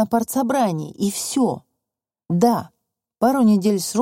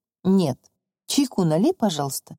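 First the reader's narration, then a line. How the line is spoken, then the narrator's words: Neutral voice. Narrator (Russian): нейтральным голосом сказал Федор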